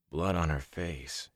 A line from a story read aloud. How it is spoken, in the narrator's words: he muttered